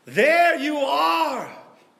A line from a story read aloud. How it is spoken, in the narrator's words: bellowed Menachem